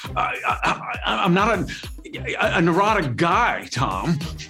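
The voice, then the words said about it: Nicolas Cage impression. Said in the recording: “your best Nick Cage impression”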